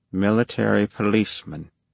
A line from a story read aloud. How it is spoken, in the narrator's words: he repeated quietly